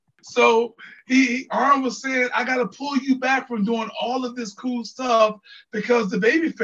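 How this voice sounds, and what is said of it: Usual voice. Nothing is said of it.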